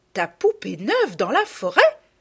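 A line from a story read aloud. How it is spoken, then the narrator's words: Exclaimed. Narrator (French): s'écria Madame de Rosebourg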